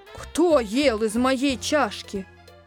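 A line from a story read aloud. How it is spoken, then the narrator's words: Mother bear's softer growl. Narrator (Russian): Медведица-мама зарычала не так громко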